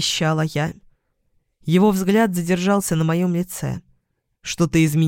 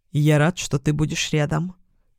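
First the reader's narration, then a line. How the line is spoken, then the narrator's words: Quiet speech. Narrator (Russian): сказал тихо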